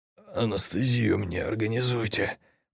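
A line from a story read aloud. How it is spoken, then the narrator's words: Hoarse rasp. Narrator (Russian): прохрипел, не узнав собственного голоса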